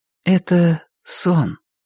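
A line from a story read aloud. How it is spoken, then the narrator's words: Soft speech. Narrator (Russian): мягко сказала Рози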